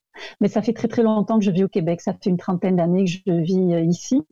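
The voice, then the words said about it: French accent from France. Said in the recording (French): “je viens de France comme mon accent l'indique”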